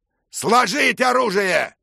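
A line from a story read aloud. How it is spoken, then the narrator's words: Knight shouting. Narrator (Russian): крикнул незнакомый рыцарь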